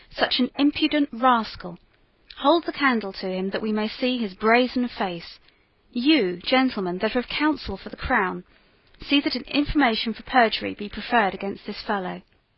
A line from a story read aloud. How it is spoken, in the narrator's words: he cried